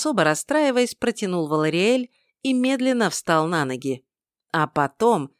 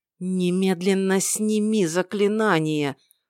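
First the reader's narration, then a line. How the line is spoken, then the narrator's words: Hissed. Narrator (Russian): прошипел Вангар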